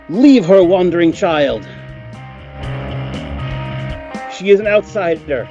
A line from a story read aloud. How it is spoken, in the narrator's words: The orc masquerade shouts